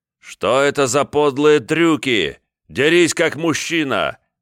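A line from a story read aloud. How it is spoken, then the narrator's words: Yelled. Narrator (Russian): заорал Мещерский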